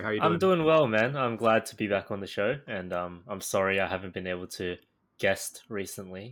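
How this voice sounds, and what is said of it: Australian accent. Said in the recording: “dulcet tones and that charming Aussie accent”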